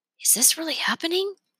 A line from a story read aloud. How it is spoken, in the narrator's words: Leo asked Remy in a half whisper